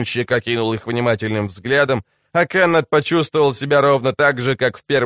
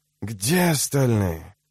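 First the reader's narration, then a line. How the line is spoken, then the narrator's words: Wheezing again. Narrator (Russian): Фургонщик снова захрипел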